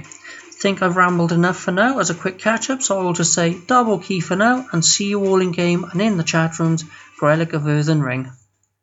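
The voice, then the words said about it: Welsh accent. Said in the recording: “Love the Welsh accent”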